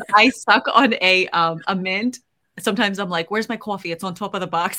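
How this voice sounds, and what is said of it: Put-on Boston accent. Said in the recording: “I might pull out my Boston accent ... I get this accent because I think it's so funny”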